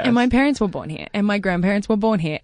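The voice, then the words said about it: American-sounding accent. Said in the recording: “you have an accent, right? I'm not crazy. ... Well, we think it's American.”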